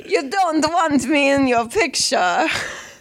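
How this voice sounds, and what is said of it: Put-on Italian accent. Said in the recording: “Do your Italian accent again.”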